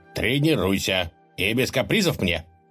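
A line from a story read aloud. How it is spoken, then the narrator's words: Stern, commanding ruler. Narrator (Russian): строго прибавил правитель, не терпящим возражения тоном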